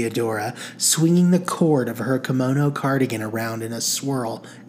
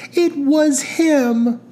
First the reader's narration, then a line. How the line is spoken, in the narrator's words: exclaimed Fanny